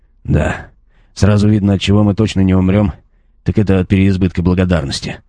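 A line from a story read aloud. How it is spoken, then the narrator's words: Grumbled, a cleric. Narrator (Russian): пробурчал клирик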